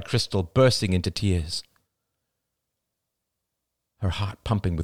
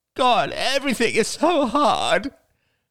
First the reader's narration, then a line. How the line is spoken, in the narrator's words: sobbed Crystal